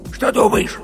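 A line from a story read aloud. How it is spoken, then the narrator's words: Heated whisper, bear cub. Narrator (Russian): жарким шепотом спросил медвежонок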